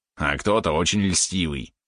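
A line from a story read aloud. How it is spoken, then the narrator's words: Grumbling. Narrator (Russian): проворчал Валерон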